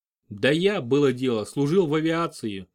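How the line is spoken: Plain. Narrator (Russian): ответил я

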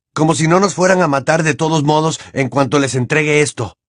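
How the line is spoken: Exclaimed. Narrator (Spanish): exclamó Harry

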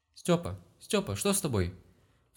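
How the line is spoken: Alarmed cry. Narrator (Russian): Встревоженно вскрикнула вернувшаяся на кухню Лена

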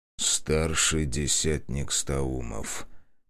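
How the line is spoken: Quiet. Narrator (Russian): тихо произнес он

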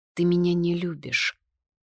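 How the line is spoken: Sad, after a pause. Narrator (Russian): подумав, печально заметила я

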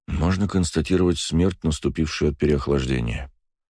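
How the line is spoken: Quiet. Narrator (Russian): тихо произнес старший целитель

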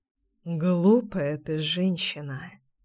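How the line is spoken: Muttered. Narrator (Russian): пробормотал Пчелкин

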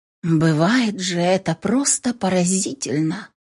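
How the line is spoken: Quiet woman. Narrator (Russian): тихонько сказала блондинка

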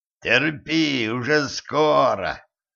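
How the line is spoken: Hoarse voice. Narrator (Russian): донесся до нее хриплый голос

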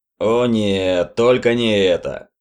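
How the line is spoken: Grumbling. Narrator (Russian): проворчал Стокер

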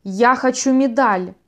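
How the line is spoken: Sudden shout. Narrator (Russian): неожиданно закричал Спейк

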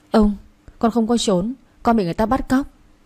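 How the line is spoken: Stammering. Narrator (Vietnamese): lắp bắp nói

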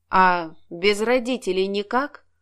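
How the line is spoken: Gloomy question. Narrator (Russian): мрачно спросил Алексей

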